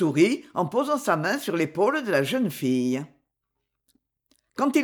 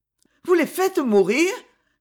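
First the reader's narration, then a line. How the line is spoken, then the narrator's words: Abrupt exclamation. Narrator (French): s'exclama en s'arrêtant brusquement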